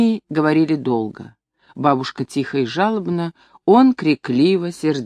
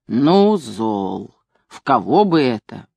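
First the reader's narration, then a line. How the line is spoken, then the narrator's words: Old woman groaning. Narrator (Russian): Бабушка застонала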